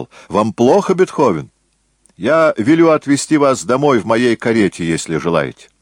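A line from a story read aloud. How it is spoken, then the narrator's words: Deliberately loud. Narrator (Russian): Сальери намеренно громко сказал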